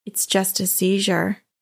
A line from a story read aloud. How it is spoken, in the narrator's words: way too calmly said